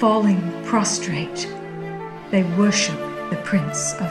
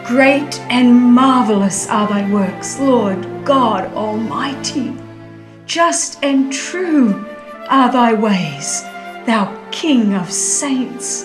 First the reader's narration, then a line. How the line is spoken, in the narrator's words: all with one voice exclaim